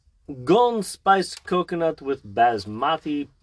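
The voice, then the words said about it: Badly done put-on accent. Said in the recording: “That was a terrible accent. I'm not good at accents.”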